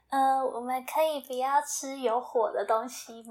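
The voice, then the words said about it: Gentle, tactful soft voice. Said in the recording (Chinese): “他就用委婉的声音说”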